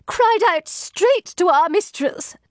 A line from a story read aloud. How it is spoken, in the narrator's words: choked Satin between sobs